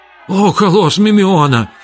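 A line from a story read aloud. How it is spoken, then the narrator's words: Frightened exclamation. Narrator (Russian): испуганно воскликнул Хилон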